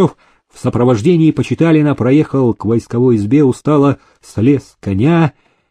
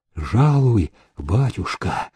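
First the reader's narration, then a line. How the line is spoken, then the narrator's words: Quiet. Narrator (Russian): тихо сказал он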